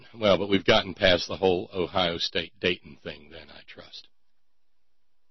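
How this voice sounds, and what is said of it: Usual voice. Nothing is said of it.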